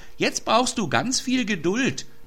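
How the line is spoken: Girl calling out. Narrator (German): rief das Mädchen

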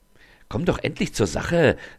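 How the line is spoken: Excited. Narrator (German): sagt sie aufgeregt

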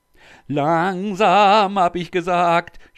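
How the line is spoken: Shouted by ruler. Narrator (German): schrie der Sultan

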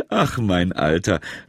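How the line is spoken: Laughing. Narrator (German): lachte das Christkind

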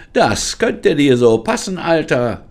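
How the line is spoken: Calling out. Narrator (German): rief sie

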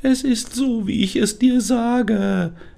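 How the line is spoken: Strange sunflower whining. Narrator (German): jammerte die seltsame Sonnenblume

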